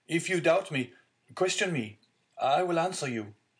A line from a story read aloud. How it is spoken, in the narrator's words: cried the unhappy young man